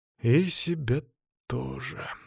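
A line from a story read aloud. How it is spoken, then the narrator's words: Sigh. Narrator (Russian): вздохнул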